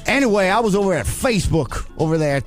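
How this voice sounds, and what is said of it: Put-on accent. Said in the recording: “Now you're doing this other accent.”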